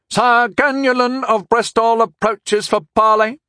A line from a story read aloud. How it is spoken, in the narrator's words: shouted